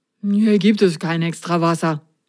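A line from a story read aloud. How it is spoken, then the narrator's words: Mumbled. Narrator (German): Unter seiner Wischmopp-Frisur nuschelte er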